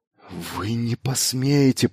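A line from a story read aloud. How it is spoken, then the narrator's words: Whispered. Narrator (Russian): прошептал он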